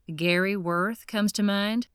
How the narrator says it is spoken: Grant sighed

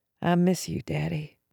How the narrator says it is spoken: I whispered

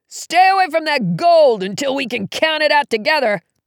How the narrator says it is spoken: he yelled

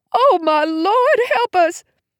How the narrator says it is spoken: Mom cried

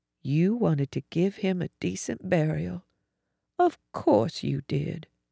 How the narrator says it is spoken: Faintly said

